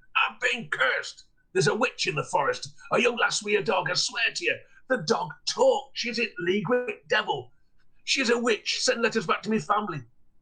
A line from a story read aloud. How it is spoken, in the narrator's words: as Law's voice returned, he shouted